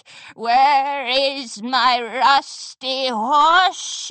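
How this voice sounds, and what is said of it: Raspy growl rising to shriek. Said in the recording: “a raspy voice cut her off ... The voice rose from a growl to a shriek.”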